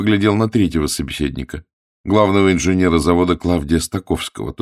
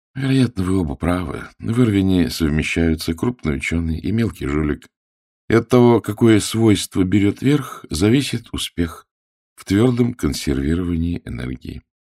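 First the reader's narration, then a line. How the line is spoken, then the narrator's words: Quiet, ironic. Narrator (Russian): Клавдий иронически негромко сказал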